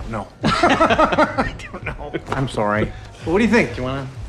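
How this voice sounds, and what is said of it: Usual voice. Nothing is said of it.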